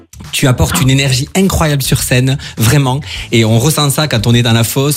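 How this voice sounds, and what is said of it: Singsong regional French accent. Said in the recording (French): “c'est pas du tout un accent de Strasbourg que tu as là... c'est beau, ça chante”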